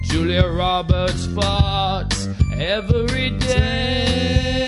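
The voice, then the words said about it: Sung in a bad English accent. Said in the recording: “the really bad Roberts English farts accent”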